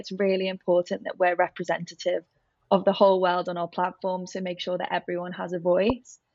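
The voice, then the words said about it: Liverpool accent. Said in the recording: “as you can probably guess from my accent, I'm from Liverpool”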